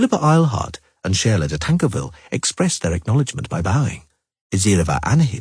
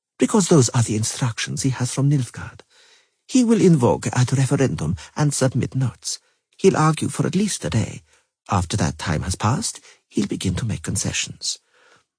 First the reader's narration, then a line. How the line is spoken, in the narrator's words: Azireva Anahid stated calmly